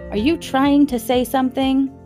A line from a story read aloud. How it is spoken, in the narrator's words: Harriet said loudly